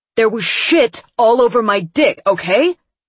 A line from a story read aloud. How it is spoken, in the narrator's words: he said angrily